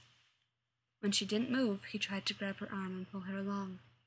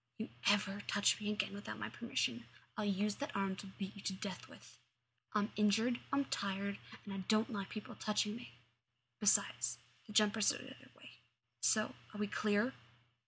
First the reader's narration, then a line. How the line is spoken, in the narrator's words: leaned in close and hissed